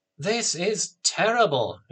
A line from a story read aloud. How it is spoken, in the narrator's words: Anthea exclaimed